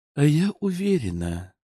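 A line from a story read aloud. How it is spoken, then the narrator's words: Purring. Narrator (Russian): промурлыкала Загорская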